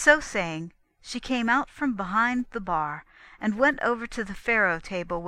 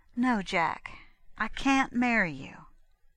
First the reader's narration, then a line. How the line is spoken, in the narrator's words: she said more gently than any time yet